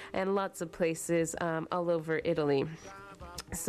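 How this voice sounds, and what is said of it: Usual voice. Nothing is said of it.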